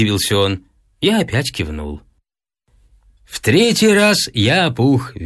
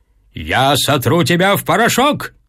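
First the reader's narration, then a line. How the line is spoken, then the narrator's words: Shouted, father. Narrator (Russian): крикнул отец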